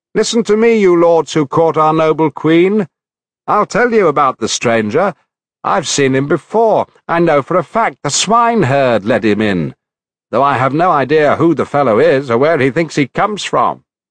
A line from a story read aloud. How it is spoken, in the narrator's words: the goatherd Melanthius shouted out in their midst